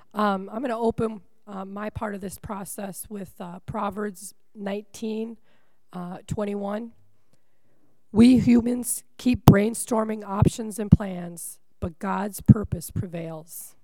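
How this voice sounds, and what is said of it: Weak, failing voice. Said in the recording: “my voice is failing me”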